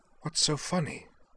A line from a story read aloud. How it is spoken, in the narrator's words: whispered